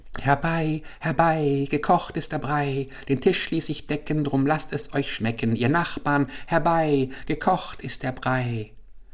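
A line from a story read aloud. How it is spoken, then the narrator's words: Old woman, sing-song call. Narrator (German): eine alte Frau rief mit singender Stimme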